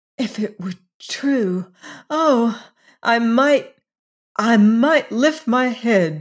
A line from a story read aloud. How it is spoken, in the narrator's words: she cried